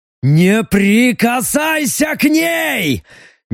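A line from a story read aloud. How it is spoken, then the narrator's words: Frantic, distorted yell. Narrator (Russian): не своим голосом заорал Леха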